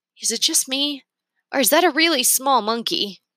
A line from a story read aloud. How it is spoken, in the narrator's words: Remy asked